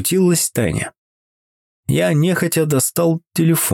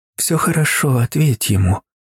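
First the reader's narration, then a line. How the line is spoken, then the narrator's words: Soft, gentle. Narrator (Russian): мягко произнесла она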